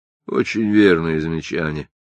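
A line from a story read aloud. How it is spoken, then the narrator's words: Dry. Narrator (Russian): сухо сказал мистер Делливан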